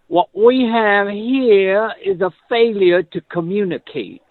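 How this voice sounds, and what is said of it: Imitates a movie character's accent. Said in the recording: “I'm going to use the right accent.”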